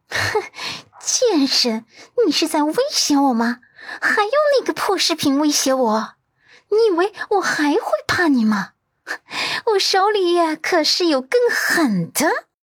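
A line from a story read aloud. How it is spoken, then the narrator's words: Cold, mocking laugh. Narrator (Chinese): 赵一冉冷飕飕的笑出声，无比嘲讽的反问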